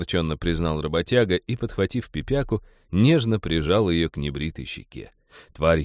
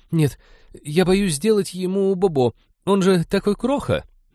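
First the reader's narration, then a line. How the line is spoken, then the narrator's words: Panicked babbling. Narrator (Russian): Молли, не выдержав, в панике залепетала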